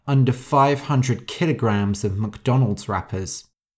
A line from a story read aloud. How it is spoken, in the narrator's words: Elizabeth muttered